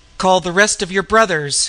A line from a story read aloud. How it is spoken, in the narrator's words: he cried